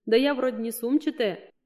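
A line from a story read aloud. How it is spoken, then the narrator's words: Nervous laugh. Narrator (Russian): нервно хохотнула ученица в ответ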